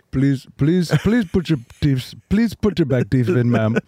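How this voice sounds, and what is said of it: Put-on Indian accent. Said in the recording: “That's very good ... When somebody has a good accent and they throw it to me, it's easier ... brush up on your Indian”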